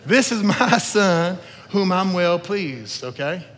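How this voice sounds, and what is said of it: Southern-accented voice of Jesus. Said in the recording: “I don't know why I think Jesus sounds Southern”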